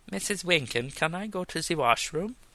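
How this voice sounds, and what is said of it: Fake Germanic accent. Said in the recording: “I don't speak in a fake Germanic accent”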